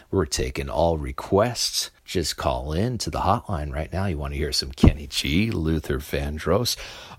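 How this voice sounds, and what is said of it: DJ-style radio announcer voice. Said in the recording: “Radio voice ... enough of my radio voice”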